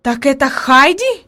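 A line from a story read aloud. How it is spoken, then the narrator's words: Exclaiming. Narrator (Russian): воскликнула наконец она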